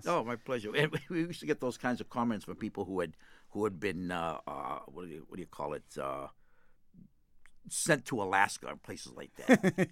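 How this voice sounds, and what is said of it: Boston accent. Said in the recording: “that good Boston accent ... I love hearing the Boston accent”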